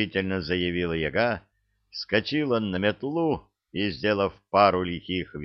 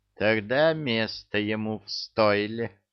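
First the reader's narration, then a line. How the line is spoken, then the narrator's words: Phlegmatic grunt. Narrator (Russian): Флегматично хмыкнул домовой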